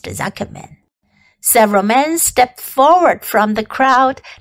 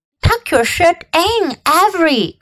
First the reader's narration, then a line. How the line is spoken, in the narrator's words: cried Mrs